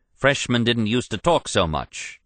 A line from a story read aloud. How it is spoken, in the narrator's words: George replied